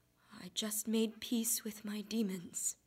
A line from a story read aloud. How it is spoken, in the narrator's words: whispered back